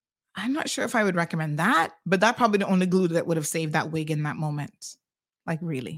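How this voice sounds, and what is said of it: Usual voice. Nothing is said of it.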